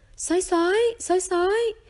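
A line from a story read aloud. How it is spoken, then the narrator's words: Loud yell. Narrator (Vietnamese): một tiếng gào to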